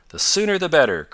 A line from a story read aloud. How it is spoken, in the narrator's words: cried Tom, and Ned fancied his chum was unusually eager